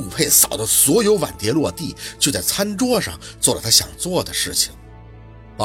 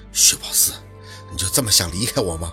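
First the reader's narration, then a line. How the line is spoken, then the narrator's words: Through gritted teeth. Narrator (Chinese): 他 咬牙切齿地问他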